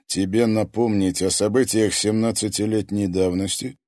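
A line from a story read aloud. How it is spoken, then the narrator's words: Calm pronouncement. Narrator (Russian): спокойно изрек стрелец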